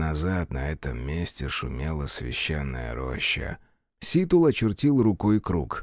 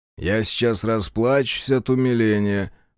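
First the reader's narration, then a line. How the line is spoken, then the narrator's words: Sardonic snort. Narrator (Russian): хмыкнул Бучило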